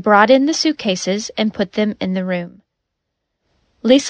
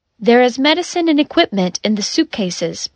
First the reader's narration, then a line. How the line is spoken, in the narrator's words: Pandora said